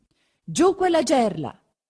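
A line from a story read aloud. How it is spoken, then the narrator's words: Shouted. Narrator (Italian): si grida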